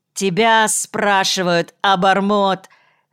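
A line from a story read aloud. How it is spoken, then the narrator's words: Loud shout. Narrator (Russian): крикнул он громко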